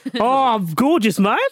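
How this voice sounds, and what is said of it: Put-on foreign accent. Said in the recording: “Should have got Vish to do the accent ... You transported me there then.”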